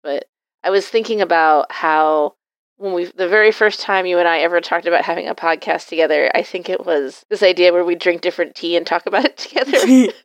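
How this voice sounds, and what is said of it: Slightly sick-sounding voice. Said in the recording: “I have been kind of sick for almost a month now ... You can probably hear it in my voice a little bit.”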